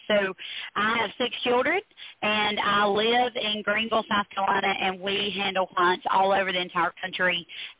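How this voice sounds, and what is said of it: Pleasant regional accent. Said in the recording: “I love your accent ... it would still be a good delivery”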